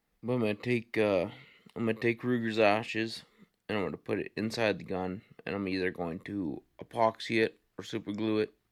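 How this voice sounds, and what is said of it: Emotional, choked-up voice. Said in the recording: “I'm getting emotional here.”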